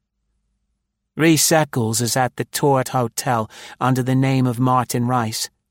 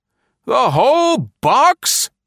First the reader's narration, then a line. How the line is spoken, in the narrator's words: He screamed